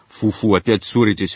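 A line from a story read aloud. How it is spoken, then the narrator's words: Snorting. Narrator (Russian): фыркнул Дик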